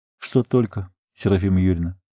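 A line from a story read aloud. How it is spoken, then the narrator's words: Quiet young man's question. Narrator (Russian): так же тихо спросил парень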